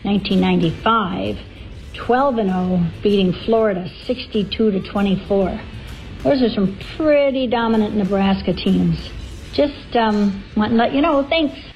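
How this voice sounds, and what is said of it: Strong Fargo Upper Midwest accent. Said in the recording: “That is the ultimate Fargo accent.”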